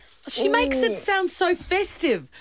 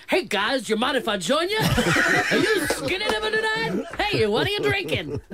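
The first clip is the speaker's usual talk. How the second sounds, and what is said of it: Playful crocodile character voice. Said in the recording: “Is that your impression of a crocodile?”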